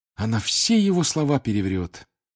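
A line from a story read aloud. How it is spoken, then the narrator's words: Heavy sigh. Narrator (Russian): тяжело вздохнул Гарри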